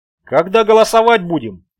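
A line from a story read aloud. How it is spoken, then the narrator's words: Woman shouting out. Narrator (Russian): выкрикнула женщина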